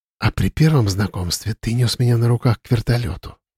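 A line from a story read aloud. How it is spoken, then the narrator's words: Quiet. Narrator (Russian): тихо произнесла она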